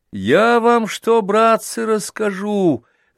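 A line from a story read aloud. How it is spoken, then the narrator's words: Thin high voice. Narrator (Russian): заговорил Костя тонким голоском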